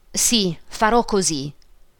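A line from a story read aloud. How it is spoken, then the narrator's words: Plain. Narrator (Italian): disse Emilio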